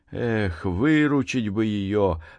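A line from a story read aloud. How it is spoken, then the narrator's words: Wistful sigh. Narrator (Russian): вздохнул Максим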